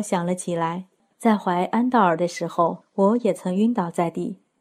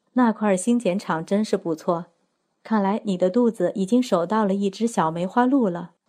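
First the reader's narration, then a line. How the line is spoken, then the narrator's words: Warm, smiling. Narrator (Chinese): 拉吉达笑眯眯地看着我，温存地说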